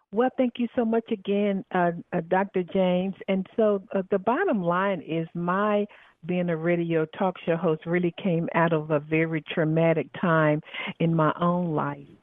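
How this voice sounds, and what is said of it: Southern American accent. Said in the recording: “Excuse my Southern accent.”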